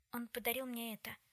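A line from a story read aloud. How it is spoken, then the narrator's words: Whisper. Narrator (Russian): прошептала она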